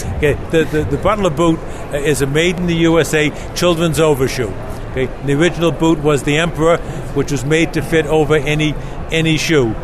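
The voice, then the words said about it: Heavy Boston accent. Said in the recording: “the heavy Boston accent ... I do have a cutting Boston accent”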